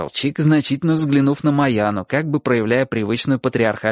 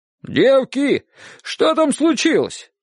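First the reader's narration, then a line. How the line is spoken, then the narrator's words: Shout from kitchen. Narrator (Russian): крикнула из кухни тетя Маша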